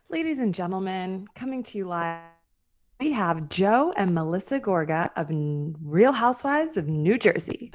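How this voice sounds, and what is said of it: Announcer voice. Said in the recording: “That's a good like announcer voice.”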